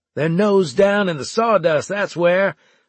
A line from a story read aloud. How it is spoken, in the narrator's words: I shouted at them